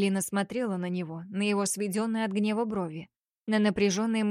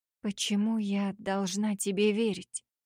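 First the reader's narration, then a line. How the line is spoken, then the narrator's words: Tired, hopeless whisper. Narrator (Russian): Ее шепот прозвучал устало и безнадежно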